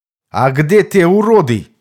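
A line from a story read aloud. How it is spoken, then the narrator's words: Distant shout. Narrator (Russian): крикнул оттуда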